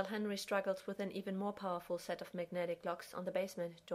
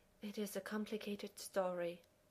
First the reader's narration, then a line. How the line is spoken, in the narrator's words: Taylor says, sighing